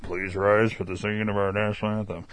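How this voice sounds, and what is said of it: Imitates an announcer's voice. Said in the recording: “That was my Toltzman impression.”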